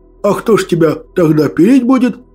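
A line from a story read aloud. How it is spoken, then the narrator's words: Old man laughing. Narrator (Russian): хохотал дед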